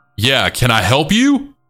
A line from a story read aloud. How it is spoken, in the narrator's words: said almost angrily